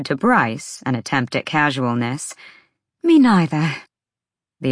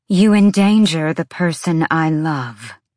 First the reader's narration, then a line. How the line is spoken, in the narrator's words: Celestina said, her voice echoing with power